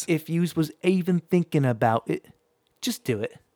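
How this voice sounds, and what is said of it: Put-on accent. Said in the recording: “that was a solid accent”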